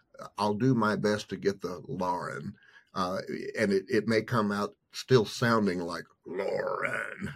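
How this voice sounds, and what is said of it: Hard-to-place accent. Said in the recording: “my kind of hard to explain accent, people guess me to be from all over different places”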